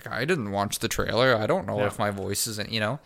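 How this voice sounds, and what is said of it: Imitates another person's voice. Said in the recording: “That's a pretty good impression. ... perfect Charles Xavier”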